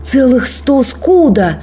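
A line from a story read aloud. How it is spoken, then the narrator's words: Young man's exclamation. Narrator (Russian): воскликнул юноша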